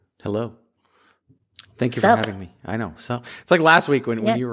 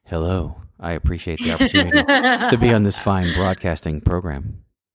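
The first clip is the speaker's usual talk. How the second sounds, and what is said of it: Mock formal NPR radio voice. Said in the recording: “That was my PBS. That was my NPR voice.”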